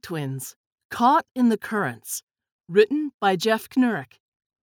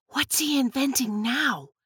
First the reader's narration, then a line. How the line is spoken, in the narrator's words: Tess whispered